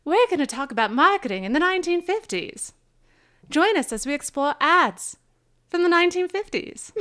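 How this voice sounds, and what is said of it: Put-on old-fashioned announcer accent. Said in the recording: “I'm going to do this in a special accent ... That's a hard accent to do.”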